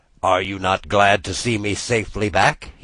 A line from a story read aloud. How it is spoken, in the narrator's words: asked